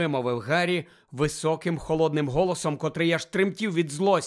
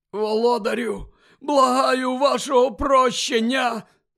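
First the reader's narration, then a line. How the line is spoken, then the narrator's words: Hoarse rasp. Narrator (Ukrainian): прохрипів той чоловік на підлозі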